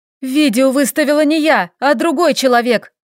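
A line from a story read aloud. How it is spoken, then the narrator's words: Shouting up close. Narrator (Russian): Прокричала почти ему в губы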